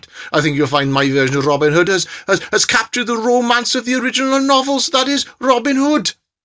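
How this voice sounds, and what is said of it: Welsh-sounding accent. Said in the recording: “I know I sound Welsh”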